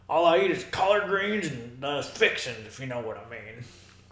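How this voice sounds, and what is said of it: Put-on Southern US accent. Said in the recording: “I speak Southern, boy ... I don't even know what that accent was.”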